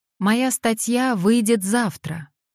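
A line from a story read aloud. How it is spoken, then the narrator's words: Loud. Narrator (Russian): громко произнесла она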